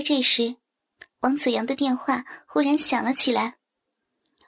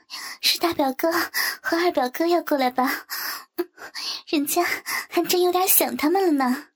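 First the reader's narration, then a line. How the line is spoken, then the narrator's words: Laughing question. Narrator (Chinese): 周琪琪笑着问道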